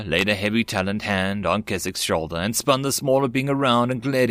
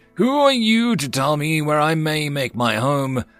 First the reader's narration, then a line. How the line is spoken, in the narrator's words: the giant Snexian roared his question